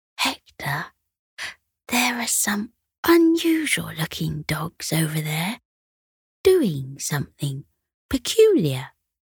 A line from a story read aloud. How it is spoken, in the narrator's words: Sunny whispered